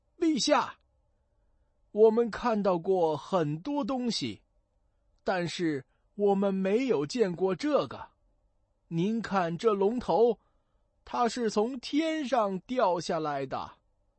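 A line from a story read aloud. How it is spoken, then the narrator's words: Shouting. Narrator (Chinese): 两位大臣大叫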